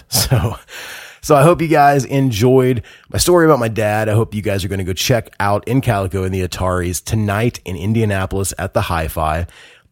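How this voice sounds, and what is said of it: Unwell, sick-sounding voice. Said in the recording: “I am delirious already. I'm not feeling really great, as you can tell from my voice.”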